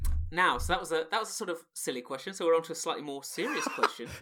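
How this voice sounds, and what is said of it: Usual voice. Nothing is said of it.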